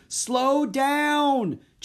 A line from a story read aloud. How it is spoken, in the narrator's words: Jack shouted to the elephant